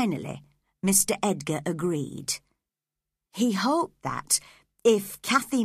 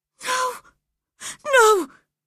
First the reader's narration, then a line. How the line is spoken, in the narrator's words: he cried, getting quite excited